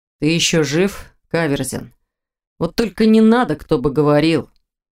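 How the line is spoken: Grumbling. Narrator (Russian): проворчал Виктор

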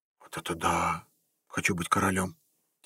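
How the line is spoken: Quiet hiss. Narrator (Russian): тихо прошипел Игорь

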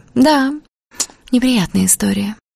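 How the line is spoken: Sighing. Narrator (Russian): Дуся вздохнула

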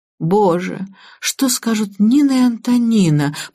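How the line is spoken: Moaning. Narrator (Russian): простонала Анна

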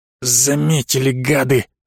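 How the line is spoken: Angry hiss. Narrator (Russian): зло прошипел Остап

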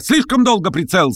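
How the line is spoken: Rapid shout. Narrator (Russian): стремительно прокричал Кириллов

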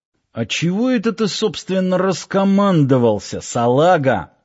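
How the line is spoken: Angry hiss. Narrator (Russian): сердито зашипел Киркин

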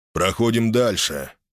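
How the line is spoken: Cold tone. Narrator (Russian): шедший сзади Аарон произнес холодным тоном

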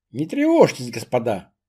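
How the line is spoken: After laughing. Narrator (Russian): сказал, отсмеявшись

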